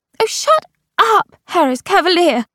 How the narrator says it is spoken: she said hysterically

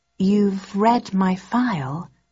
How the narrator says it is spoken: I asked slowly

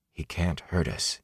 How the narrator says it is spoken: he whispered, and wished he believed it

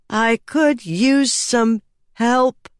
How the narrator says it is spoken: she said slowly, the wording practiced

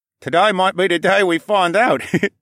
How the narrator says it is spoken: the other chuckled

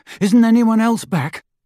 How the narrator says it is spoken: Harry panted

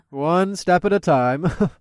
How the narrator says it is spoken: I laughed

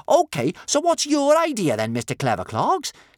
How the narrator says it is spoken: said Kamikaze crossly

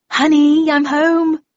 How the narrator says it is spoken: I yelled out

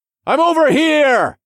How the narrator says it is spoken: I shouted across the arena-like canyon

